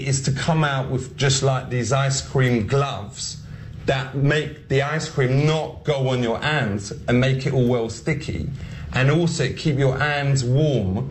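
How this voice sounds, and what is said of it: Comedic Ali G character accent. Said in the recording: “here's Ali G, here's Sacha Baron Cohen trying to just do this accent”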